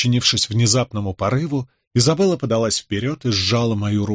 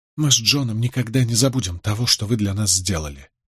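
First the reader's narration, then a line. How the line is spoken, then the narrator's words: Whisper. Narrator (Russian): прошептала она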